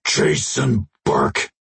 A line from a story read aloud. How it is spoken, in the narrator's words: the alien rumbled